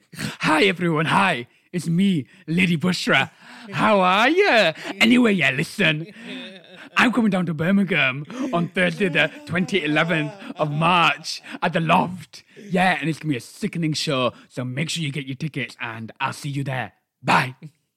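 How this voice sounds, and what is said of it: Imitates another person's voice. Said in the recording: “That was such a good impression. That was a really good impression.”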